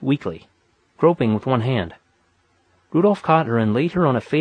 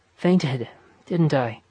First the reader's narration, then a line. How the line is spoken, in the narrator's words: asked, weakly